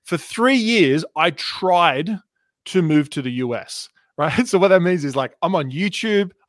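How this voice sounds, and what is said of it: Australian accent. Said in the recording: “I'm Australian. You can hear my Australian accent.”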